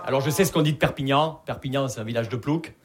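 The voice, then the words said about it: Southern French regional accent. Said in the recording (French): “Vous l'entendez à mon accent, je viens pas de Paris. Je viens de Perpignan.”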